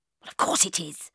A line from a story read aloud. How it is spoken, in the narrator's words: I muttered